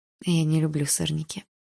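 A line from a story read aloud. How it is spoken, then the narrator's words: Quiet. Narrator (Russian): тихо сказала я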